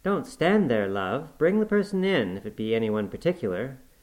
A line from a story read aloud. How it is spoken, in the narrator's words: exclaimed quickly